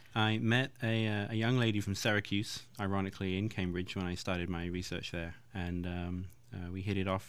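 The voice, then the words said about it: Slight English accent. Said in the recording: “a slight accent from you ... I'm from England, all over England, but I was trained in Cambridge, so that's where the accent's from.”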